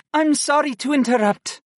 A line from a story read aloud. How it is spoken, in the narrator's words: Syra panted, as she attempted to catch her breath